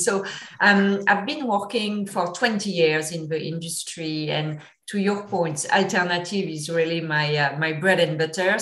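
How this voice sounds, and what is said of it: Thick French accent. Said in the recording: “I apologize in advance if my accent is a bit thick. I'm from France originally”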